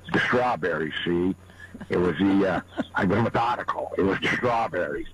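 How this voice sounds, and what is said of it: Imitates another person's voice. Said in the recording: “good Bogart impression”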